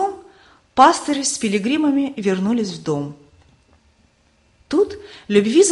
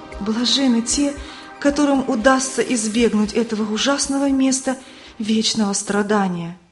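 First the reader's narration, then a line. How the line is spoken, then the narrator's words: Trembling voice. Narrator (Russian): Она дрожащим голосом сказала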